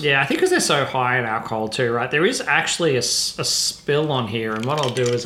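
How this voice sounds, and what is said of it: New Zealand accent. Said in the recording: “Got a little Kiwi there in your accent.”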